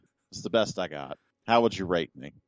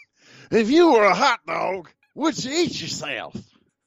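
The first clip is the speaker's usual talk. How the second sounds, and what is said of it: Imitates another person's voice. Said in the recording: “how good is your Harry Carey? ... It's not bad. It's not bad.”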